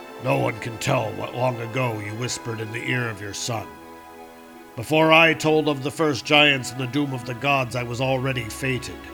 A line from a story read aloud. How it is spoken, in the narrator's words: He said in a low voice